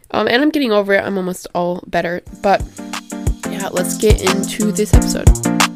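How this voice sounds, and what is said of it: Scratchy voice from being sick. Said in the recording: “I am a little bit sick. I've been sick the last couple days... my voice is kind of scratchy or different than usual”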